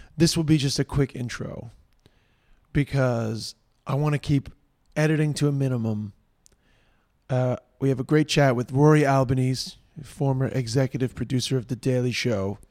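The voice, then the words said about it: Hoarse voice. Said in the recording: “Apologies in advance for my voice. I'm a little hoarse.”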